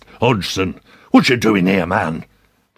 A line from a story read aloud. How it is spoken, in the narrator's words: hissed